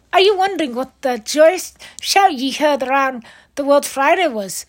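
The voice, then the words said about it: Bad put-on Scottish accent. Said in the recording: “bad Scottish accent”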